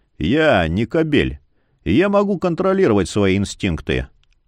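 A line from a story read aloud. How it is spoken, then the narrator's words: Snorting scoff. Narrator (Russian): Она фыркнула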